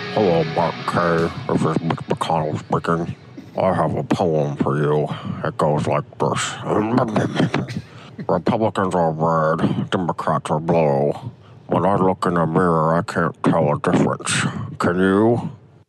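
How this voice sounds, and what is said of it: Mitch McConnell impression. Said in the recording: “That may actually have been Mitch. That's exactly what that guy said. That was a great Mitch McConnell impression.”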